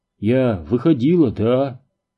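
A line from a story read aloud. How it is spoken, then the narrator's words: Rapid-fire retort. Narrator (Russian): выстрелила ответной очередью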